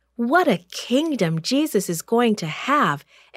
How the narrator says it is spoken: exclaimed James

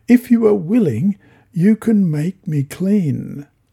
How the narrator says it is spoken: A man with leprosy came to him and begged him on his knees

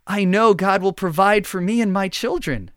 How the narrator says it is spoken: exclaimed the mother who had sought his blessing

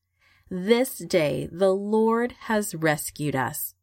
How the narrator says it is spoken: they said

